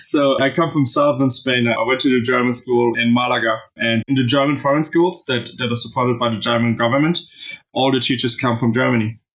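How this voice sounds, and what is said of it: German accent, not Spanish. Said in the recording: “there's no Spanish accent here ... I have a German accent”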